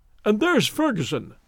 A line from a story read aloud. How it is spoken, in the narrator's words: Larry chuckled